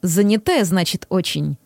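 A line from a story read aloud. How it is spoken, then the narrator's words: Amused grunt. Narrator (Russian): хмыкнул Макс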